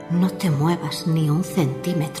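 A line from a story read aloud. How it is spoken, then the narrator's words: Murmured. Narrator (Spanish): murmuró la voz de Edward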